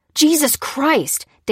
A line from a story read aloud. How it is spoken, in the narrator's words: Dan shouted